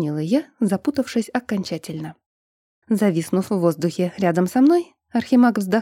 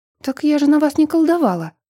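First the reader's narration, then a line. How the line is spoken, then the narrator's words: Flustered exclamation. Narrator (Russian): воскликнула, пребывая в крайнем смятении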